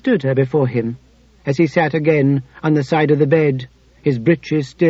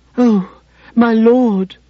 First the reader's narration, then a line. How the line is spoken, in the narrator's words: she begged, dissolving in weakness, the aftershocks of the pleasure growing stronger instead of fainter